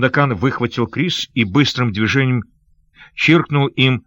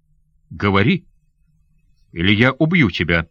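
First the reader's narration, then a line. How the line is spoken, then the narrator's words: Cold. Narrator (Russian): холодно проговорил Сандокан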